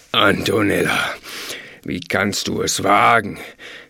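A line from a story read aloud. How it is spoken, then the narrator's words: Thundering disembodied voice. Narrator (German): donnerte es aus dem Nichts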